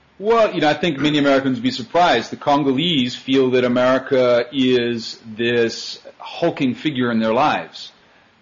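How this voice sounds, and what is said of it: American accent. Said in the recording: “you're from the United States... judging by your accent, that sounds about right”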